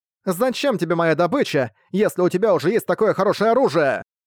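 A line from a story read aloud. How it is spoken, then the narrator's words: Monster girl shouted angrily. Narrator (Russian): сердито крикнула девушка-монстр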